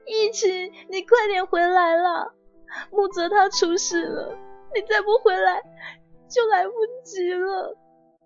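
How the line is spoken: Anxious choked voice. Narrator (Chinese): 他焦急还有哽咽的声音

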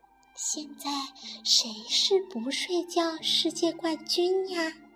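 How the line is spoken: Quiet question. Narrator (Chinese): 黛拉小声地问

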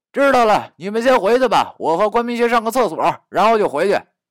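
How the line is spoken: Shout. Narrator (Chinese): 我就大喊道

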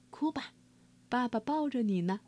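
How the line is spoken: Father speaking softly. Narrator (Chinese): 爸爸继续轻声说

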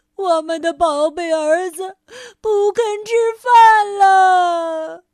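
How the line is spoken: Sad crying shout. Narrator (Chinese): 鳄鱼爸爸和鳄鱼妈妈彻底失望了，他们哭了起来，伤心的喊道

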